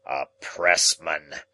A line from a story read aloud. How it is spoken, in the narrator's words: he growled